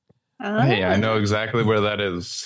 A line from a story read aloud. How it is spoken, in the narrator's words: he said sarcastically